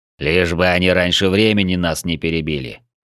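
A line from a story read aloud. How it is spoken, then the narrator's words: Grim reply. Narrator (Russian): мрачно ответил Урфул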